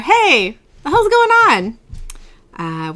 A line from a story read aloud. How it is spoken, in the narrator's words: He kind of shouts to her